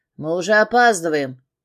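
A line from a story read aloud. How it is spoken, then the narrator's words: Grumbling. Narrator (Russian): пробурчал Дэн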